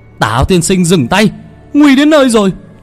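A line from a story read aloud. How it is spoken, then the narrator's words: Shouting. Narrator (Vietnamese): La Quý hét lên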